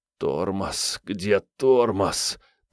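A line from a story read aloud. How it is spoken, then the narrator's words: Moaning. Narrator (Russian): простонал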